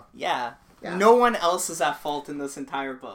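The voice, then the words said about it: Sarcastic tone. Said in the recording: “being sarcastic”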